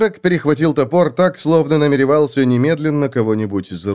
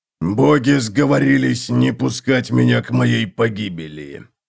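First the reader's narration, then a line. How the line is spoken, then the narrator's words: Hoarse rasp. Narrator (Russian): прохрипел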